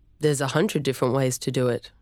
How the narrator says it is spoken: Travis replied

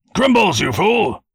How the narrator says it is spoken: Raymond shouted, losing his noble demeanor along with his patience

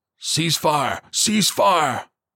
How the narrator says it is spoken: Copeland barked

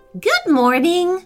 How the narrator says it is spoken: said the lady brightly

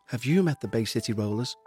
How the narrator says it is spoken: she whispered to Fallows

